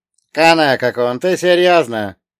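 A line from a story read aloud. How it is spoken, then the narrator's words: Snorting. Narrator (Russian): он фыркнул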